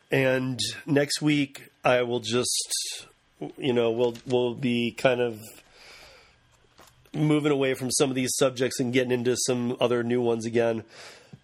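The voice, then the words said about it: Strained, failing voice. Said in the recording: “I am absolutely losing my voice”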